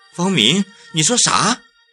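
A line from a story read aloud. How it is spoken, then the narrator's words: Plain. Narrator (Chinese): 在门外的小王开了口，说道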